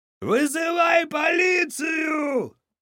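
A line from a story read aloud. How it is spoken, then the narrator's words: Shout. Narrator (Russian): крикнул тот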